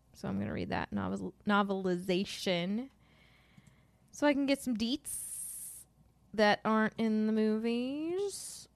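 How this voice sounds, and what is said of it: Speaking very slowly. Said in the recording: “I don't know why I'm talking so slow”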